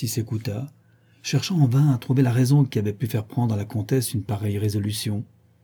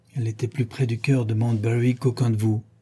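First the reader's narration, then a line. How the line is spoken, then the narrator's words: Countess, muffled low voice. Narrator (French): répondit la comtesse d'une voix sourde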